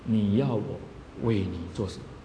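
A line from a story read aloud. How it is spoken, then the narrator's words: Gentle. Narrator (Chinese): 用这种温柔的态度跟他说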